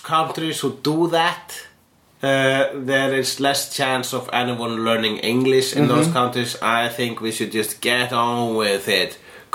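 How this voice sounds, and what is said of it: Strong foreign accent. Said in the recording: “this charming, strong accent”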